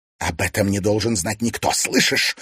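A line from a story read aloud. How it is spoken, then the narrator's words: Angry hiss. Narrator (Russian): злобно зашипела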